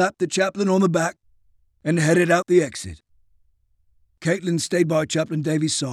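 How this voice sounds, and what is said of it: Usual voice. Nothing is said of it.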